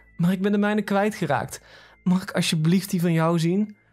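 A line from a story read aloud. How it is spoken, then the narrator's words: Pleading. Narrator (Dutch): smeekte ze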